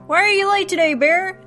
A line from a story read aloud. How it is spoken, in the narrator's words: yelled Stuart at the bear